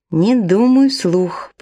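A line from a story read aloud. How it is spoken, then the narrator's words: Muttered under breath. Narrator (Russian): пробурчала себе под нос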